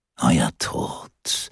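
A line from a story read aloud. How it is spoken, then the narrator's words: Murmur muffled by mask. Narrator (German): raunte er den Frauen durch seine Maske zu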